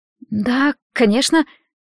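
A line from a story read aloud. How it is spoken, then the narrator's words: Bewildered reply. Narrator (Russian): растерянно отозвалась Марет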